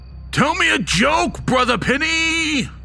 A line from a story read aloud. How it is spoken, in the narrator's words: He bellowed, fully expecting laughter to break out at any moment